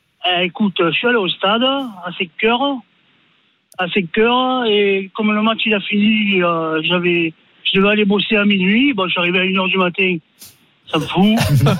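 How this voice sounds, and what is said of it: Marseille regional accent. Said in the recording (French): “avec l'accent.”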